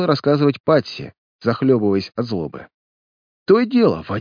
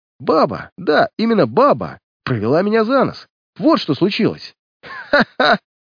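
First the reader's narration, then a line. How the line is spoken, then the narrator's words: Involuntary laughing. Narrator (Russian): Невольно засмеялся сыщик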